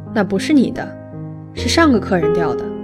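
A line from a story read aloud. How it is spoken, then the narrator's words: Cold. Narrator (Chinese): 司机冷冷地说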